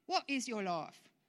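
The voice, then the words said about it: Put-on British accent. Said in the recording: “I feel the need to say that in a British accent.”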